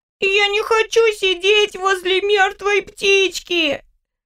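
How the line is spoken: Loud sobbing, small child. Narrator (Russian): В голос зарыдала мелкая

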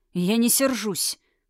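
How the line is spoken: Through gritted teeth. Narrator (Russian): процедил Тхирайм

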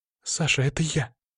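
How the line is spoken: Frightened chirping over speaker. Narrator (Russian): испуганно защебетала из динамика

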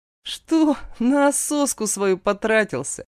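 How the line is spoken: Vulgar giggle. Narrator (Russian): пошло хихикает Игорь

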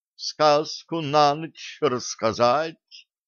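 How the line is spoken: Low chesty purr. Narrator (Russian): низким грудным голосом промурлыкала гнома

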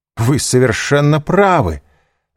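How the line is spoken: Exclamation. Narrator (Russian): воскликнул Данглар, порывисто вставая

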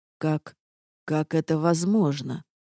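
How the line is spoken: Dazed mumble. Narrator (Russian): оторопело пробормотал он

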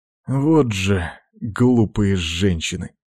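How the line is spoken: Sighing. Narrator (Russian): вздохнул Томас

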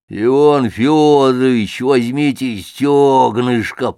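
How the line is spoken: Roaring waiter. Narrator (Russian): проревел официант с блюдом

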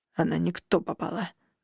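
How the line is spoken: Creaky, grating voice. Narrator (Russian): буквально проскрипел блондин

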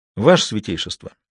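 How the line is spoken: Low, clear enunciation. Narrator (Russian): генерал негромко, но четко проговаривал слова

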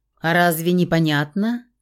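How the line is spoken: Scornful snort. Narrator (Russian): фыркнул мужчина

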